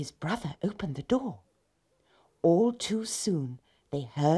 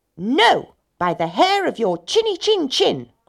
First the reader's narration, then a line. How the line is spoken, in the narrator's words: cried the pigs